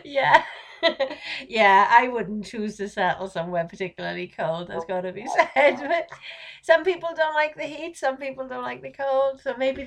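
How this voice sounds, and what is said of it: Welsh accent. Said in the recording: “you have a cool accent ... my Welsh accent ... I've got a really cool accent”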